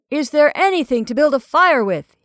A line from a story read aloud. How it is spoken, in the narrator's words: he shouted